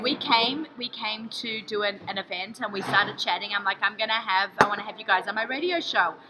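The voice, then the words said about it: Speaks with a noticeable accent. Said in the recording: “when people say I love your accent, I could hear you talk all day”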